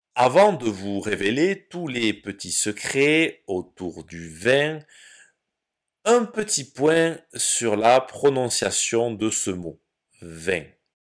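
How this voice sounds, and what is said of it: Southern French accent. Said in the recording (French): “j'habite et j'ai grandi dans le sud de la France ... dans le sud de la France, l'accent que j'ai et que nous avons fait que nous prononçons vin”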